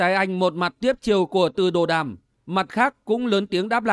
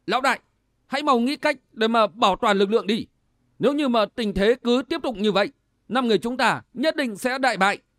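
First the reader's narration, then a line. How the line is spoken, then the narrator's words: Loud. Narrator (Vietnamese): lớn tiếng nói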